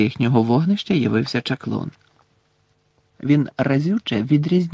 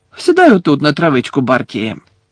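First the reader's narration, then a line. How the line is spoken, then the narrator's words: Cheerful suggestion. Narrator (Ukrainian): весело запропонував Лудо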